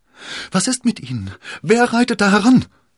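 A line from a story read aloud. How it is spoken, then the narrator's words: Fearful call. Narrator (German): rief Konstanze voller Angst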